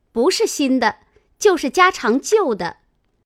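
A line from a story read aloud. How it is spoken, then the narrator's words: Laughing. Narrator (Chinese): 晴雯笑道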